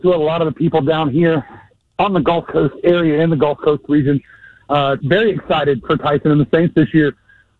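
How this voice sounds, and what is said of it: Out of breath, panting speech. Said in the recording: “Why are you so out of breath?”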